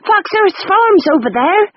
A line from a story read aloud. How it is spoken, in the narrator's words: shouted a woman